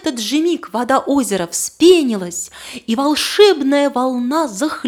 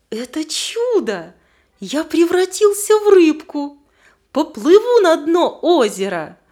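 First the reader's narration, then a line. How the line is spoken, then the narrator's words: Joyful exclamation. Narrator (Russian): радостно воскликнул мальчик-рыбка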